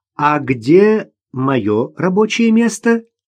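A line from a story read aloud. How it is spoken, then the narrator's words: Cheerful question. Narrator (Russian): так же весело спросила Ирина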